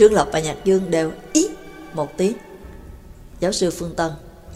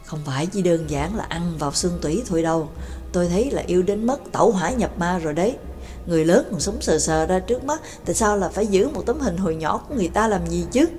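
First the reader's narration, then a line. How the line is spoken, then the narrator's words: Whispered reply. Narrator (Vietnamese): Nhạc Dương cũng thì thào đáp lại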